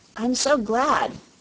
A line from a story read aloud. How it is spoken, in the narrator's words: exclaimed Dorothy